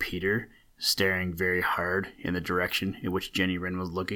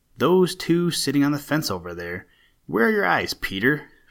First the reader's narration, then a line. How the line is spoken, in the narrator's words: replied Jenny rather sharply